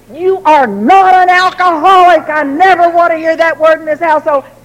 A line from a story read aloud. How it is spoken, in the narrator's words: And I would scream